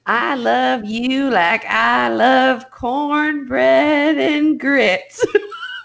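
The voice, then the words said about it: Bad put-on Southern accent. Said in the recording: “I'm not even going to try a Southern accent. ... that horrible accent”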